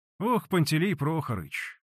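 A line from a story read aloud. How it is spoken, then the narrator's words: Sighed. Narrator (Russian): вздохнул лохматый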